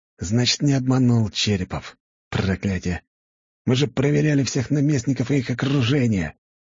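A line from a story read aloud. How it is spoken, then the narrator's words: Furious hiss. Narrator (Russian): прошипел взбешенный принц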